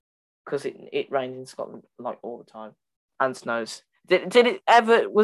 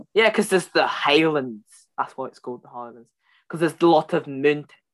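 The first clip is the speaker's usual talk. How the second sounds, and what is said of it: Bad put-on Scottish accent. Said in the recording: “That's the worst Scottish accent I've ever done. I'm usually pretty decent”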